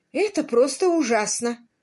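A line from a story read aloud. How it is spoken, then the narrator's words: Exclamation. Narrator (Russian): воскликнула Аннабелл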